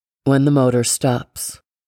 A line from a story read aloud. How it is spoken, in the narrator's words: Grandpa said